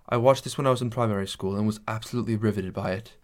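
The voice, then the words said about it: Poorly done British accent. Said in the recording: “this is a British guy ... That was a terrible accent.”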